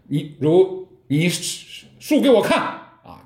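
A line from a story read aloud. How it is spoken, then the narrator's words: Booming loud voice. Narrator (Chinese): 六祖当时就震声而曰，就大声说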